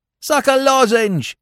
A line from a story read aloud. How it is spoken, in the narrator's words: shouted someone